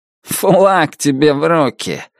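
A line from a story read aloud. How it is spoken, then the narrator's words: Snorting. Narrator (Russian): хмыкнул Туз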